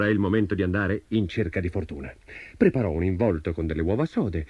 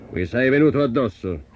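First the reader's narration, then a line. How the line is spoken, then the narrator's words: Booming giant. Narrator (Italian): tuonò il gigante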